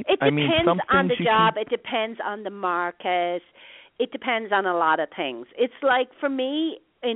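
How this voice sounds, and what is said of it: Irish accent. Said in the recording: “you still got an accent ... get it Irished up”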